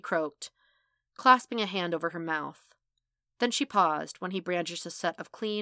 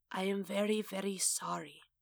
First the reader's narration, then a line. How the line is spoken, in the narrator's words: he whispered